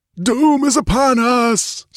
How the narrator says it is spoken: screamed the skull-like apparition

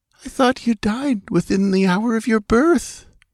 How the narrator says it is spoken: said feebly

